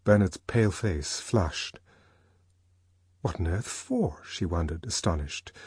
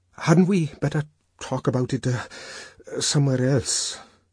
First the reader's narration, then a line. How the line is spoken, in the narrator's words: he stammered, looking horribly uncomfortable